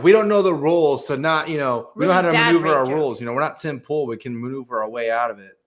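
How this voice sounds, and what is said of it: Usual voice. Nothing is said of it.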